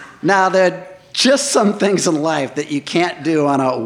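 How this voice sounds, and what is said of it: Usual voice. Nothing is said of it.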